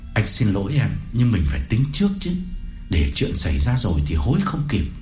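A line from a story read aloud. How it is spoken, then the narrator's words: Lowered voice. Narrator (Vietnamese): Cương hạ giọng đáp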